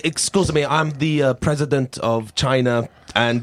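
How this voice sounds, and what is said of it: Silly put-on foreign accent. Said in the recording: “stupid accent”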